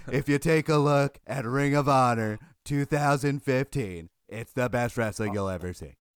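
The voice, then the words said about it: Imitates another person's voice. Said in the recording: “doing a Donald Trump impersonation ... doing a hacky Donald Trump”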